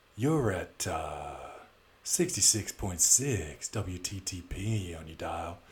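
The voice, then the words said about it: Old-school radio DJ voice. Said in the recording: “That's my old school radio voice.”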